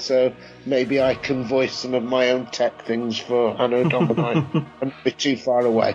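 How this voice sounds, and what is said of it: Yorkshire English accent. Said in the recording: “I've got a Yorkshire accent”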